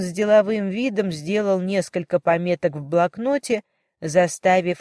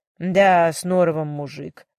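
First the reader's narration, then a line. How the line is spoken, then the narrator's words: Husband sighing. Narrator (Russian): вздохнул ее муж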